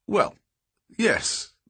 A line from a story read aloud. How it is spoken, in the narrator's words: answered